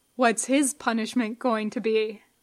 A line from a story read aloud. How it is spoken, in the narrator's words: Simon asked